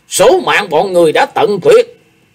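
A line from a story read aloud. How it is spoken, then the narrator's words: Shouting. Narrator (Vietnamese): Hải Ma giáo chủ thét lên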